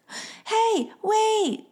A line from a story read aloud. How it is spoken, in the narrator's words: yelled Levi